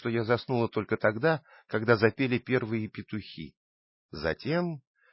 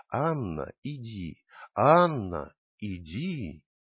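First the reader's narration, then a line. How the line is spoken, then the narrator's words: Constant whisper. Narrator (Russian): синий огонек, постоянно шептавший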